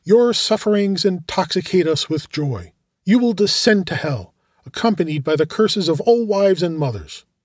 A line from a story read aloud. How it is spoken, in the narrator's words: one of them exclaimed